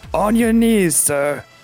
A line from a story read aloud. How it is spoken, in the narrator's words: I'm just going to yell out